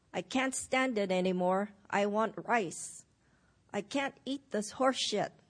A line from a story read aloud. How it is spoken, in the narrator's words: cried out in disgust, spitting out in a spray